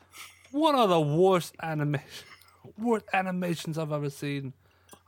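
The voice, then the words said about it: Deliberately bad British accent. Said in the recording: “I'm trying to do a really bad UK accent... You're doing a really bad UK accent... just like my accent”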